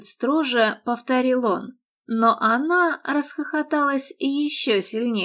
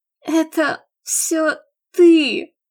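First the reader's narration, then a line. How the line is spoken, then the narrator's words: Forced out, strained. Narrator (Russian): выдавила наконец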